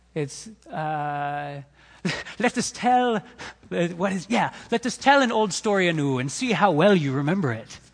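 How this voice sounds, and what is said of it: Put-on storyteller accent. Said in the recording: “I need to do it in an accent, I think.”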